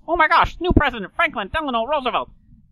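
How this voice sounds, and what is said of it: Old-timey radio announcer transatlantic accent. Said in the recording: “old-timey news radio announcer voice. Well, that has a name, and it's known as the transatlantic accent ... Taking the R's out ... some of those R's almost start getting dropped”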